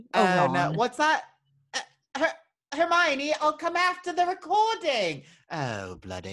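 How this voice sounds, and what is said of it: Put-on British accent. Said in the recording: “It was my Hilary Duff British impression.”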